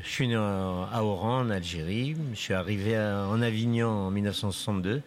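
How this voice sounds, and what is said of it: Slight accent from elsewhere. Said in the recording (French): “Un petit accent d'ailleurs.”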